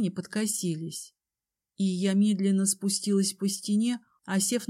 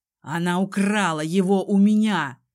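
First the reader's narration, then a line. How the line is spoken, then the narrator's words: Father's angry growl. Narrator (Russian): рычал тем временем отец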